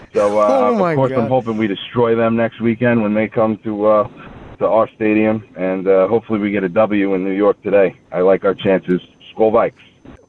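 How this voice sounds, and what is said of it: Long Island accent. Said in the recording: “he's from Long Island ... I hear the accent there”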